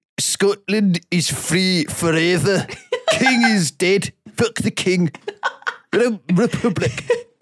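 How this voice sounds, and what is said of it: Put-on Scottish accent. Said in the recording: “Can you do the accent? ... Scottish accent”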